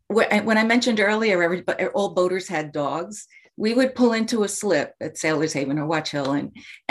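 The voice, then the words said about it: Long Island accent. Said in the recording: “I say Long Island with my accent, I know I can't help it. I try, but it's useless.”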